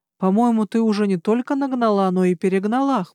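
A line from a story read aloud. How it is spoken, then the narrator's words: Wry snort. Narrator (Russian): хмыкнул Гарн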